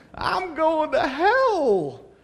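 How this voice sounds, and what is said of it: Sweet little southern accent. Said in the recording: “with her sweet little southern accent”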